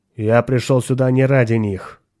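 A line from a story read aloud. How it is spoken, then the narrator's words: Cold. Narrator (Russian): холодно сказал хранитель культа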